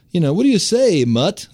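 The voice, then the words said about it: Deliberately bad put-on accent. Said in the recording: “This is my really bad accent.”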